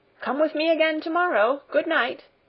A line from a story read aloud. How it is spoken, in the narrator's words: Peter called out after her